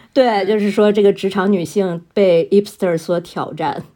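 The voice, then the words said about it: French-accented English word, silent H. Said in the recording (Chinese): “听到没？我 H 都不发音，发不出来了。... 真的是法语口音了。”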